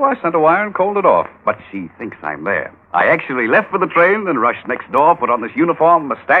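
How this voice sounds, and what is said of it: Usual voice. Nothing is said of it.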